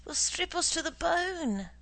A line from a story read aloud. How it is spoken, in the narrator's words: says Kosachi in a tearful voice